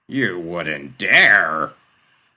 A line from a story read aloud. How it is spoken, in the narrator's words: Mont's father roared